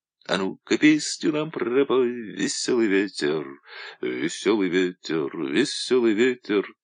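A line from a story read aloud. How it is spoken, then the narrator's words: Quiet singing. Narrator (Russian): тихо пел Женька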